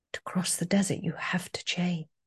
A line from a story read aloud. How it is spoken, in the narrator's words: the voice simply whispered again